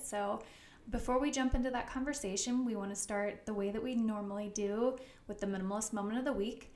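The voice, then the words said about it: Breathless, fast speech. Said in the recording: “out of breath. I think it's because I'm pregnant. I'm like, oh, I'm out of breath ... you can slow down ... I talk fast”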